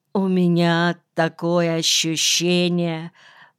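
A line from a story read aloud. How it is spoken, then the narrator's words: Moaning. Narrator (Russian): простонал Нельсон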